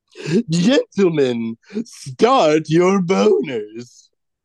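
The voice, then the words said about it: Silly put-on voice. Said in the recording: “I'm going to say them all with this silly voice.”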